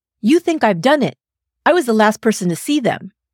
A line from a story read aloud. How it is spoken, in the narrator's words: snapped and blurted out